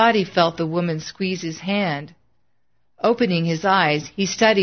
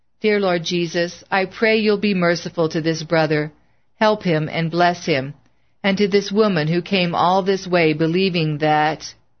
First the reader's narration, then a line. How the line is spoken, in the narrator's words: Bill said calmly